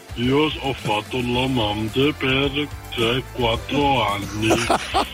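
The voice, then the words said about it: Disguised, electronically altered voice. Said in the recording (Italian): “Questa è una voce camuffata. ... con la voce modificata.”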